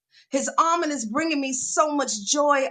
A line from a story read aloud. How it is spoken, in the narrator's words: I scream